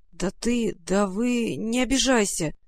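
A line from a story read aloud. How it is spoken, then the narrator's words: Awkward mumble. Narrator (Russian): нескладно пробормотал он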